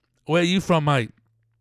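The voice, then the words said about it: Put-on Cockney accent. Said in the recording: “working on my Cockney accent.”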